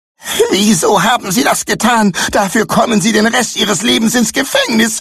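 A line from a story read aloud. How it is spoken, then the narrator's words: Desperate scream. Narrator (German): schrie verzweifelt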